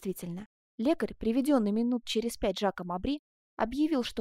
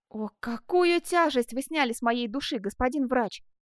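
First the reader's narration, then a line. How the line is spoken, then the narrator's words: Exclamation. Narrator (Russian): воскликнул Бенвенуто Челлини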